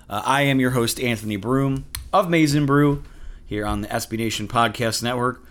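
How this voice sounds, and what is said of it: Slightly raspy voice. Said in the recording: “Voice is a little raspy today.”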